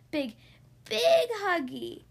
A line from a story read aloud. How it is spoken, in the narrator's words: wailed the baby